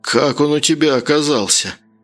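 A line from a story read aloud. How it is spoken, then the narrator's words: Muffled question. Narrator (Russian): Глухо спросил Харьков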